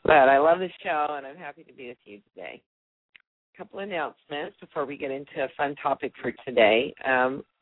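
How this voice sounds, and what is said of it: Slightly raspy early-morning voice. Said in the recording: “my voice might be a little bit raspy, because this is the first thing I'm doing this morning”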